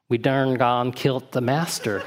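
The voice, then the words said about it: Slightly exaggerated Southern accent. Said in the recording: “in a slightly exaggerated Southern accent”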